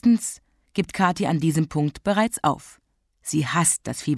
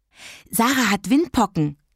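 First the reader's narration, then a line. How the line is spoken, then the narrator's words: Breathless telling. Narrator (German): erzählte atemlos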